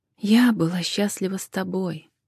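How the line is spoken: Soft correction. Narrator (Russian): мягко поправила Джен

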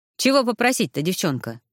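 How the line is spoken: Old man's grunt. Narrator (Russian): хмыкнул старик

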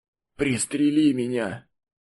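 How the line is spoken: Wounded man's rasp. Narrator (Russian): Раненый хрипел

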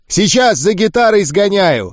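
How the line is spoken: Shouted. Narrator (Russian): крикнул Гуль

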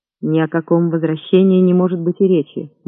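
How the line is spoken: Gloomy. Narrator (Russian): мрачно сказал он

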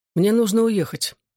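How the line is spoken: Calm detached composed. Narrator (Russian): спокойным, отстраненным и собранным тоном объявил он

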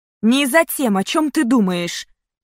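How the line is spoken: Sharp objection. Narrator (Russian): резко возразила я

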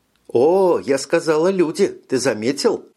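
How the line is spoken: Laughing. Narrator (Russian): Эрника засмеялась

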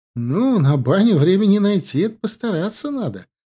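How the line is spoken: Laughing. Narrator (Russian): рассмеялась Марина

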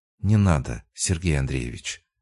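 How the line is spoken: Quiet, steady voice. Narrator (Russian): произнесла она тихо, и в голосе не дрогнуло ничего

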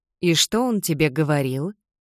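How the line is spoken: Soft, gentle. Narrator (Russian): мягко спросила я, не желая давить

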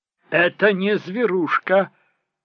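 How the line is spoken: Sharp interruption. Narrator (Russian): резко оборвала его Михо

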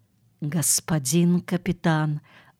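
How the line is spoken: Whisper. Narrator (Russian): услышал он шепот

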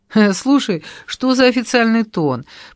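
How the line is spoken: Forced laugh. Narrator (Russian): принужденно рассмеялась я

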